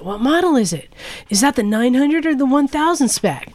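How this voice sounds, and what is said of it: Put-on California accent. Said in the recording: “Suddenly, he's got a California accent.”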